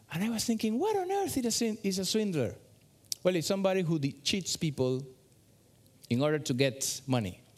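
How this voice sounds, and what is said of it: Non-native English accent. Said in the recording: “English is my second language. You can hear it by my accent.”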